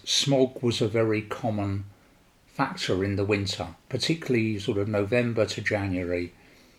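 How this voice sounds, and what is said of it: London English accent. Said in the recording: “I was born and raised in London, as my accent portrays to you”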